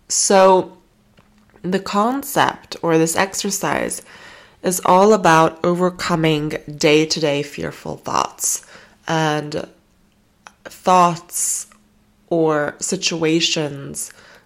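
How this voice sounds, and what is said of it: Voice sounds off from a cold. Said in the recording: “my voice is like funny today, I'm sorry, but I have a bit of a cold”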